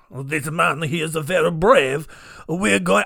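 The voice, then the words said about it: Exaggerated half-French comic accent. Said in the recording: “I don't know why it's like half French, but then like if Borat was doing a French accent.”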